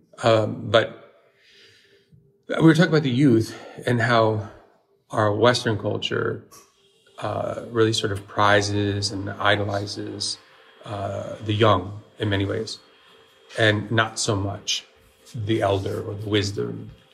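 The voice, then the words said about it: Slightly scratchy, hoarse voice. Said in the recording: “Sorry for my voice. I don't know. It was a little scratchy. I think it's because we were talking a lot last night.”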